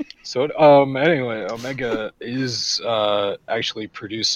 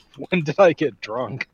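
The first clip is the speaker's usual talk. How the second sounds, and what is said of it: Put-on Irish accent, fairly good. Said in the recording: “the Irish really came out there ... That's not a half bad accent”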